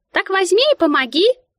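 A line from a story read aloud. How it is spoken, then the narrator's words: Sudden squeak nearby. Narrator (Russian): пискнула рядом Мика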